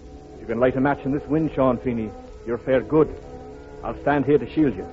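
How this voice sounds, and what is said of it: Irish Cork brogue. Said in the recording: “County Cork, from the Brogue here.”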